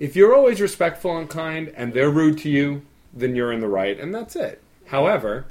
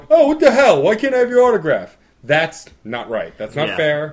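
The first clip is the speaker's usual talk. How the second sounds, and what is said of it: Obnoxious Brooklyn accent, put on. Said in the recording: “It was my imitation of Steve doing an accent. ... It was an attempt of obnoxious Brooklyn. ... Which I clearly don't do obnoxious well.”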